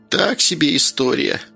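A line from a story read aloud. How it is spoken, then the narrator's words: Laughing. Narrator (Russian): посмеялась баба Валя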